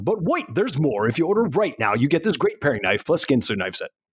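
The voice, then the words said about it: Booming radio announcer voice. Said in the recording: “can you answer it with your best radio voice? ... hear your radio voice again ... in my best announcer”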